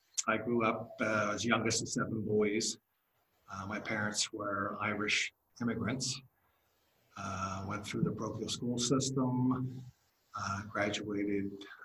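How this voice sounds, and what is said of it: Philadelphia accent. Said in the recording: “born and raised Philadelphian. You can probably tell that by my accent.”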